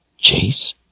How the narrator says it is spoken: he whispered hopefully

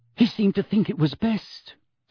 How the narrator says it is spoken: said Hermione rather breathlessly

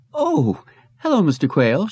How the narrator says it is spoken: she said nervously

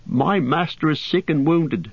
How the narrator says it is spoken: said Sam angrily

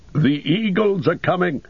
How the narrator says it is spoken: cried in a loud voice ringing above the din

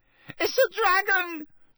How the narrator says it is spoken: shrieked one of the first years, losing her head completely

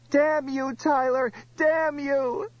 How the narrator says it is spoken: Brown Limper fell in a jerking tangle of arms and legs, screaming

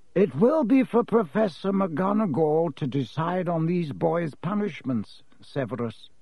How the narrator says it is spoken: said Dumbledore calmly

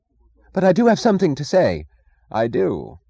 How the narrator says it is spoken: he cried hastily in answer to the angry frown on Reardon's face

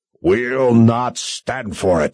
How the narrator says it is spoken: he roared

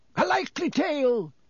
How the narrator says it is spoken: roared Sir Cadogan

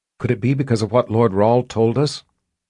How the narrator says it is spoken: Kara asked in a low voice

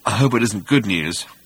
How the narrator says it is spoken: muttered Zippo Bibrock 5×10⁸

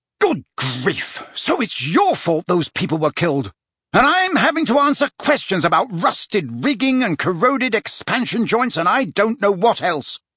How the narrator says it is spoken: said the Prime Minister furiously

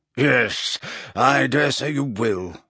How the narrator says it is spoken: grunted Slughorn

